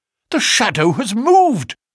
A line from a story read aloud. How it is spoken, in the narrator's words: I cried